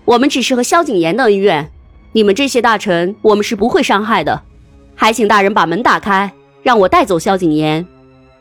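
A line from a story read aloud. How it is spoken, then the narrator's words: Angry. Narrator (Chinese): 沈大人愤怒的说道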